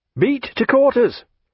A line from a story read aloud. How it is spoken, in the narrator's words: cried the First Lieutenant